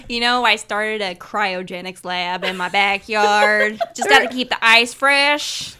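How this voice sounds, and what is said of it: Put-on redneck-Canadian mixed accent. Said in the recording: “What kind of accent is that? ... They sound like the guy from Frozen ... combine a redneck accent with a Canadian accent”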